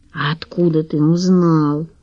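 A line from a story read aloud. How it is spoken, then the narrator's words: Whispered question. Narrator (Russian): шепотом спросил Лавровский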